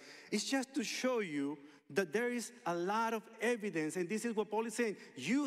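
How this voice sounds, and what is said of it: Usual voice. Nothing is said of it.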